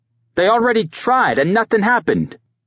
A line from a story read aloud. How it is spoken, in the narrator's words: Maurice shouted